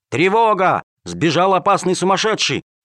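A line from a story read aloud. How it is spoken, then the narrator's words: Guards shouting. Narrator (Russian): стражники кричали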